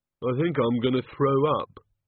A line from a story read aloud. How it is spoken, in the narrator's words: said the Oh God miserably